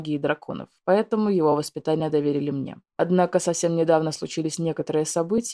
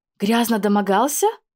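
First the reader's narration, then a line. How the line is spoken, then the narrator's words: Horrified exclamation. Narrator (Russian): воскликнула в ужасе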